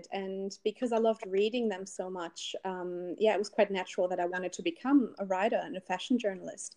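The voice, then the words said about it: German accent. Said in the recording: “I'm from Berlin originally, in case you can't tell from my accent.”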